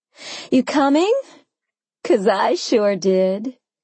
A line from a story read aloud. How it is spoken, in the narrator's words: I called over the rush of the shower, laughing at my own joke